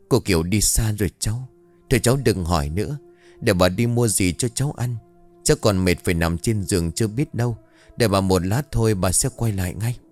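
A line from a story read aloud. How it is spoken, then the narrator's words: Grandmother sighing. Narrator (Vietnamese): Bà ngoại thở dài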